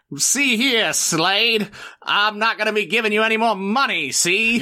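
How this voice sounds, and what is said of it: Old-time gangster goon voice. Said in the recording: “impersonate one of the gangster's goons”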